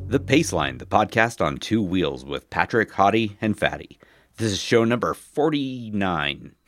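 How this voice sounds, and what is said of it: Deep, congested baritone voice. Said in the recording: “You can tell I've got a cold... my voice sounds wonderful... an almost Hottie-like voice... one of those CBS baritones”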